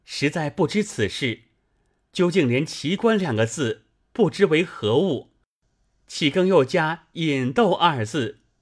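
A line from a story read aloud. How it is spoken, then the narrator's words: Crying. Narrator (Chinese): 说着便哭了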